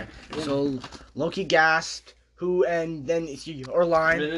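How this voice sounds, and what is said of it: Usual voice. Nothing is said of it.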